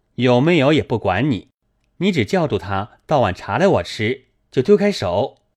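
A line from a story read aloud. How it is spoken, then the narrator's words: Laughing. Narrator (Chinese): 宝玉笑道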